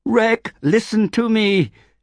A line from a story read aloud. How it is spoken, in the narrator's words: she shouted